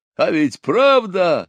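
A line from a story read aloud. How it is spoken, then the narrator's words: Drunken boastful yell. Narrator (Russian): заорал он, преувеличивая свою удаль, хотя и впрямь опьянел от рома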